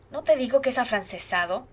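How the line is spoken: Exclaiming. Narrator (Spanish): exclamó

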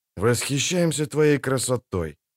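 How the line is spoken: Muffled grumble. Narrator (Russian): пробурчал Хенсельд из глубин кубка

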